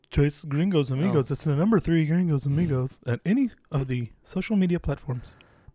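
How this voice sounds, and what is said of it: Imitates another person's voice. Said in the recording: “my best impression him. ... Of Jordan ... Pretty damn really close, if you ask me. Better than I could do.”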